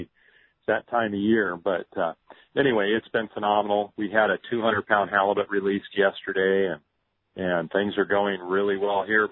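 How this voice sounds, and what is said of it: Scratchy, slightly hoarse voice. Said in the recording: “Sorry, my voice is a little scratchy.”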